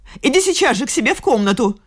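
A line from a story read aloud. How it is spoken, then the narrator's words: Furious shout. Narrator (Russian): закричала она в бешенстве, чувствуя, что не права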